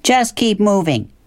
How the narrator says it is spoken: shouted Ferris's mother after the raccoon

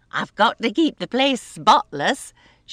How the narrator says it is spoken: she said with a laugh

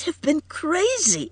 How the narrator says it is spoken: cried Edith brokenly

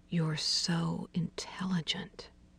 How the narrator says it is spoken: he murmured

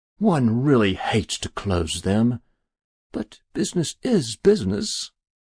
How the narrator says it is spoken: said the stranger with a sigh

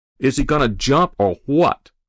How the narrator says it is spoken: the fireman shouted

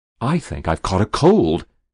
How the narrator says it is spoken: he ventured desperately

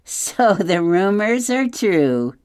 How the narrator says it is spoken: Nettle laughed

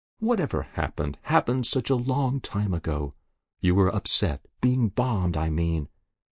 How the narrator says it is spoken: said Jessup gently

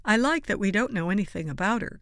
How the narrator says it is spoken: Gerstenberger said

